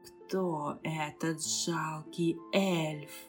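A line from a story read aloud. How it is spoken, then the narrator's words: Hissing voice. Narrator (Russian): раздалось шипение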